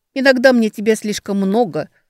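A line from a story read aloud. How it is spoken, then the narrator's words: Dry. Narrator (Russian): Сухо ответила Ксения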